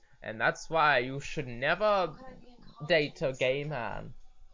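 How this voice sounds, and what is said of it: Put-on German accent. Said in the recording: “version of Sigmund Freud's accent ... That's the German thing.”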